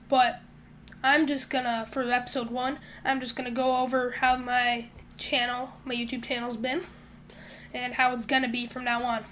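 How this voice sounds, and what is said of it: Sick, weird-sounding voice. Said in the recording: “my voice sounds weird, I've been pretty sick”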